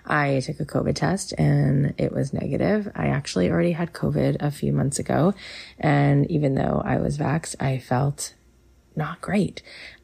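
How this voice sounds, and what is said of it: Slightly sick-sounding voice. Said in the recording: “I am a little under the weather today, so if you hear that in my voice, that's what's going on ... So if you hear it in my voice, that's why.”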